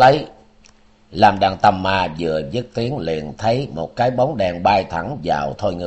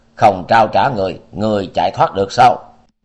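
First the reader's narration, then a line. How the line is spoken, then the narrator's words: Loud bark. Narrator (Vietnamese): Thôi Ngưu Đại Dương quát lớn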